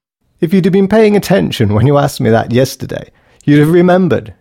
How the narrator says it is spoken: giggled, half-heartedly

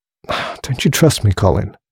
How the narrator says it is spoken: She asked wearily

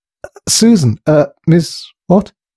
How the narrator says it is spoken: He stuttered in excitement

